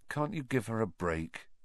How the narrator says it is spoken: Harry asked Ron quietly

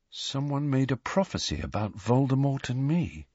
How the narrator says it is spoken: he said quietly

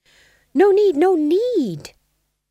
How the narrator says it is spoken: said the Fool desperately

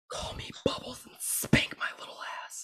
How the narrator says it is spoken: you just whisper in ear

